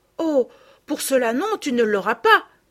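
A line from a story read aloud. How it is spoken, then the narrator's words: Exclaimed. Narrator (French): s'écria Madeleine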